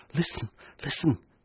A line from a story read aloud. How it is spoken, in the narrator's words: she whispered